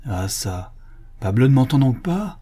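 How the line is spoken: Increasingly anxious exclamation. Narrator (French): s'écria le chanoine dont l'inquiétude augmentait

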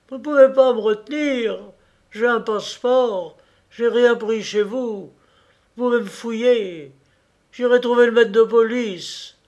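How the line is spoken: Tearful shouting. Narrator (French): criait d'une voix larmoyante

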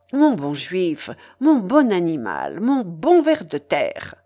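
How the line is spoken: Exasperated exclamation. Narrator (French): s'écria le yéoman en perdant patience

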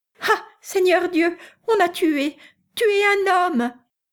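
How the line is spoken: Woman's shrieking cry. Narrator (French): répéta en glapissant une femme à la porte cochère d'à côté

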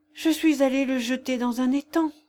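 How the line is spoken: Sighing. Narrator (French): soupira-t-elle

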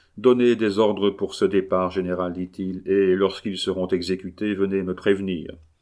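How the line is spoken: Perfectly calm voice. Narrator (French): d'une voix parfaitement calme

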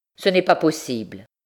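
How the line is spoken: Curt refusal. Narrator (French): refusa le père d'un ton plus sec

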